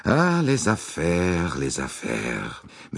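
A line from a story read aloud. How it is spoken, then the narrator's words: Sighing. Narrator (German): Monsieur Bouc seufzte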